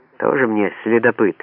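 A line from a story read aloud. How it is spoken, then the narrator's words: Snort. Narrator (Russian): фыркнула Бобби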